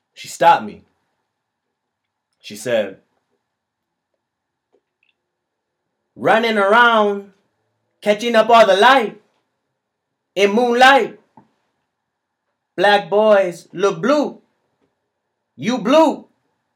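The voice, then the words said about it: Imitated Cuban accent. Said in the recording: “Mahershala Ali doing a Cuban accent.”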